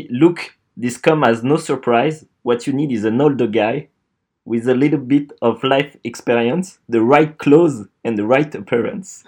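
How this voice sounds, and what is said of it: French-accented English. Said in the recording (French): “interdit de se foutre de la gueule de mon accent”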